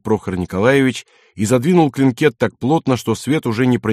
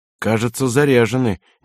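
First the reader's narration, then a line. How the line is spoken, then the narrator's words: Uncertain. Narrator (Russian): неуверенно произнес Лыщенко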